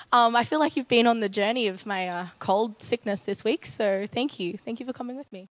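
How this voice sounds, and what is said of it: Slightly hoarse voice. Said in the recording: “My voice is somewhat back tonight, but as you can tell, it's still a little bit hoarse. ... forgive me if it cracks and breaks halfway through”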